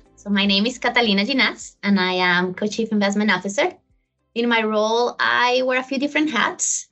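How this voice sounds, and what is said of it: Colombian Spanish-accented English. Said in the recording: “where that accent is from, which I haven't been able to get rid of ... I was born in Colombia. I grew up there, and then I lived for many years in Spain”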